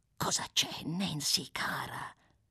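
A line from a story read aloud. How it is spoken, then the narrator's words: Whispered question. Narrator (Italian): domandò in un bisbiglio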